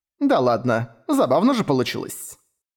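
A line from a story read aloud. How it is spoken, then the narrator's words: Laughing. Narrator (Russian): засмеялась Вендельгард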